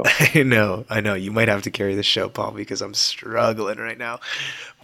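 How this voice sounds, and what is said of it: Hoarse, worn-out voice. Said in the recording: “apologize for my voice ... It is completely shot”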